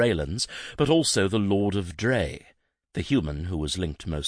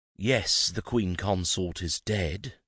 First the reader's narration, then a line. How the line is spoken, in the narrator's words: Jason said